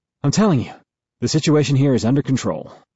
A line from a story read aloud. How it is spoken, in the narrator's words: a man's voice says with a slight wheeze